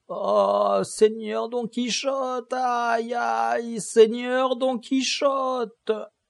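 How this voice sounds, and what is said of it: Plaintive, doleful moaning voice. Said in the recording (French): “lui dit d'une voix plaintive et dolente”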